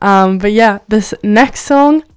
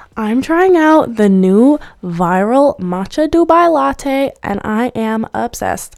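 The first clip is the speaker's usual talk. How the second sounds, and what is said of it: Imitates a TikTok influencer voice. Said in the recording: “the TikTokers that's like ... Was that a good impression? Probably not.”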